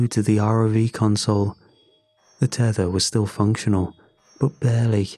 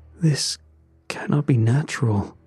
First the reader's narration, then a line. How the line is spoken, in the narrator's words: he muttered